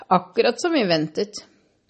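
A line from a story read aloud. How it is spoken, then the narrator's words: Cheerful. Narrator (Norwegian): sa bestefar Joe muntert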